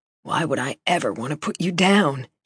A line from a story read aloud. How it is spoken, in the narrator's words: He said, his voice dropping to a low whisper